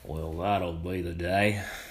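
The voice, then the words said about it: Feeble John Wayne impression. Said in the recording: “That was my feeble attempt of his impersonation.”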